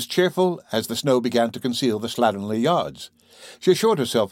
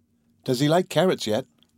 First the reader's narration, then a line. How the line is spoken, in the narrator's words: replied Carol